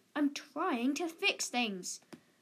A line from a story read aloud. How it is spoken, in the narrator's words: Dev grumbled